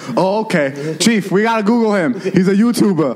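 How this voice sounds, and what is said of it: Put-on New York cop accent. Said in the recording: “I love how ... adapts my accent when we talk about these stories. ... when I think of cops, I think of New Yorkers.”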